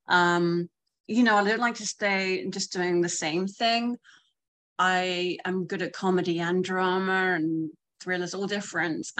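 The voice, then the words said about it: British accent. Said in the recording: “although I sound British”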